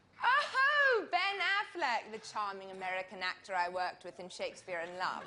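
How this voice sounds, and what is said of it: Put-on English accent. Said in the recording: “why are you speaking in an English accent? ... English people always speak with English accents”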